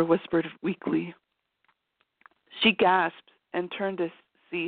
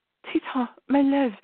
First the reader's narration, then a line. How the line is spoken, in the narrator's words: she choked on whatever word that wouldn't come out